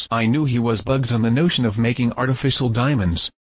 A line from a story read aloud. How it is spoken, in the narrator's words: said Smith